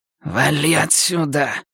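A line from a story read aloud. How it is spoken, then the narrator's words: Hissing. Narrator (Russian): прошипел сержант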